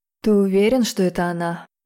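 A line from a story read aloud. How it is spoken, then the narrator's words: Muffled dragon voice. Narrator (Russian): глухо спросил дракон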